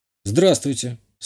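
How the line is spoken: Calm. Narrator (Russian): спокойно сказал я

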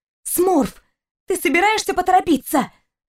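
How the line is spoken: Angry hiss. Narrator (Russian): Зло прошипела девушка

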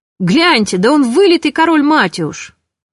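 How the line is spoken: Surprised shout. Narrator (Russian): Фелик от удивления даже закричал

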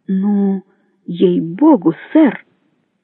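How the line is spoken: Uncertain exclamation. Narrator (Russian): неуверенно воскликнул

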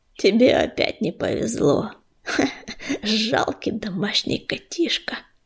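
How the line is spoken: Hiss. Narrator (Russian): прошипел он

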